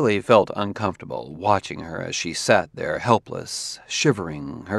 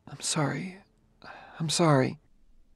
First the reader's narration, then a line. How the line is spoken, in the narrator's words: murmuring forlornly